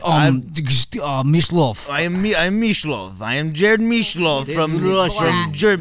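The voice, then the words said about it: Put-on Russian accent. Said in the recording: “Russian right now. This is not German.”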